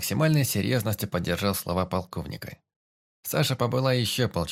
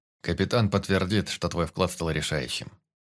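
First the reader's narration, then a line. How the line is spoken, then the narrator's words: Serious reply. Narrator (Russian): серьезным голосом ответил Сердюков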